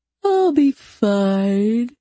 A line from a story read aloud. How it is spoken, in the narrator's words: I said, feigning a yawn